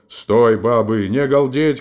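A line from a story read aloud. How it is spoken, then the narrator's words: Booming bass shout. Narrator (Russian): крикнул он, покрывая сразу своим басом их голоса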